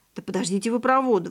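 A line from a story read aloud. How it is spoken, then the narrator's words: Exclaimed. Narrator (Russian): воскликнул Андрей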